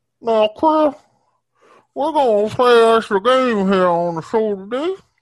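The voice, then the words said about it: Imitates another person's voice. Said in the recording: “I do an okay Steve Harvey impression.”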